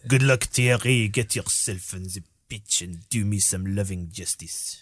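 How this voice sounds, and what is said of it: Impression of Arsene Wenger. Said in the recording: “Is this your Nunes impression ... Arsene Wenger.”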